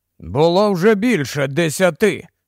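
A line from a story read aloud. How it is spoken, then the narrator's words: Angry voice. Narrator (Ukrainian): сердито подав голос Кості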